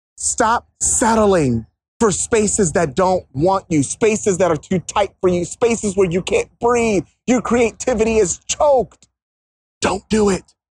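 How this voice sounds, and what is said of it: Passionate, emphatic delivery. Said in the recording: “hear the passion in my voice”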